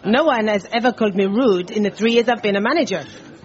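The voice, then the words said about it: Put-on French accent. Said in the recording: “We were going to actually change it to an English accent, but this is reporting a true incident, and she was French.”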